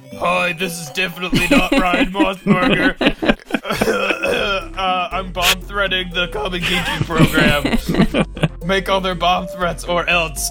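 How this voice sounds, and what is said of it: Put-on disguised fake voice. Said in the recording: “Impression of Ryan making a fake voice. ... It just had to not sound like Ryan.”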